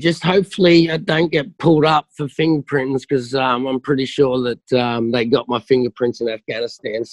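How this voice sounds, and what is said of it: Australian accent. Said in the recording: “Something about that Australian accent”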